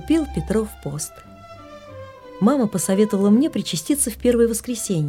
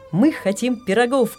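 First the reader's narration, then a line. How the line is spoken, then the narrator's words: Father shouting from afar. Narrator (Russian): крикнул с другой комнаты папа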